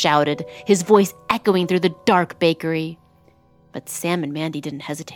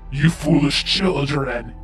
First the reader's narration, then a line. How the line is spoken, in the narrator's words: he snarled